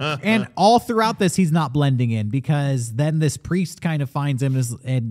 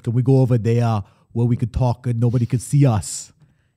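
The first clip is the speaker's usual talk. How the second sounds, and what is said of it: Imitates another person's thick accent. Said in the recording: “in his thick Conan accent”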